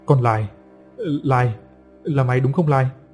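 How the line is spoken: Stammering. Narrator (Vietnamese): ông ta mới lắp bắp mà thốt lên

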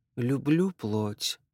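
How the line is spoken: Muttered. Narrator (Russian): пробормотала племянница

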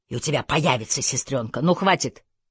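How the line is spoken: Barked reply. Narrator (Russian): рявкнул в ответ

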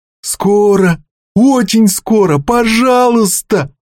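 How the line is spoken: Whining plea. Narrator (Russian): заскулил рыбак

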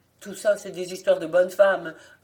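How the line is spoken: Sneering. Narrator (French): ricana un des assistants

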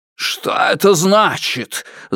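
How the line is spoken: Yelled. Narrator (Russian): завопил Фаразар

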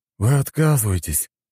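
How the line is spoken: Heavy sigh. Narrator (Russian): тяжело вздохнул Константин

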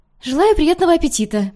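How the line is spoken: Rapid chatter. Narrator (Russian): протараторила Юми

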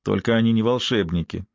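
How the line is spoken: Dry, flat remark. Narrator (Russian): сухо сообщил Шай своей кружке

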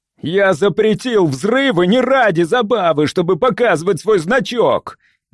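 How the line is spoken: Senseless shout. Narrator (Russian): бессмысленно выкрикнул

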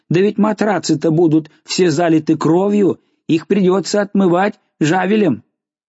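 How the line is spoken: Woman screaming. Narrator (Russian): Женщина, уже говорившая раньше, закричала

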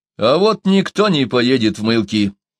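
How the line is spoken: Sudden and rude. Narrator (Russian): вдруг грубо сказал Чумбока

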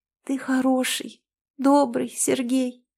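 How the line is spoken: Sobbing speech. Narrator (Russian): всхлипывая, проговорила она

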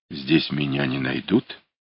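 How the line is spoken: Whispered question. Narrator (Russian): спросил он шепотом

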